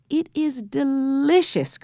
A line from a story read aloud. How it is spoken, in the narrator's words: cried Jessie